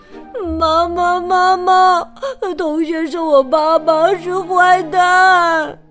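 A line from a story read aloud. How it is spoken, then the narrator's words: Crying child. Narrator (Chinese): 布朗哭着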